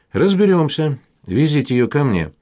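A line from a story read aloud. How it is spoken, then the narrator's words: Confused reply. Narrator (Russian): растерянно отозвался Киселев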